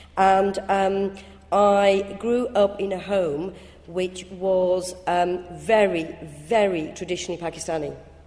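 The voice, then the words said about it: Strong northern English accent. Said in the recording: “I'm from Bradford, as you can probably tell by my quite strong northern accent”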